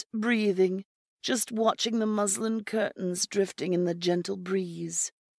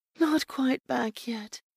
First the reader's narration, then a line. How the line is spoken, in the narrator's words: she breathed